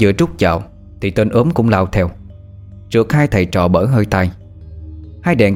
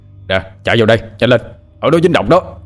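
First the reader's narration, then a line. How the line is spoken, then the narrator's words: Shouting. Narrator (Vietnamese): Hai đèn hét lên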